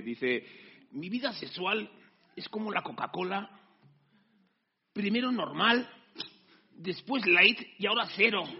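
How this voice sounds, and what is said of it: Put-on Mexican Spanish accent. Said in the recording (Spanish): “Lo voy a decir con acento mexicano”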